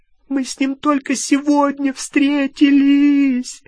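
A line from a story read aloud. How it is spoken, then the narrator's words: Sobbing. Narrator (Russian): рыдала Гермиона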